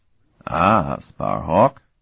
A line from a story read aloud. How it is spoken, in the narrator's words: the white-haired man drawled urbanely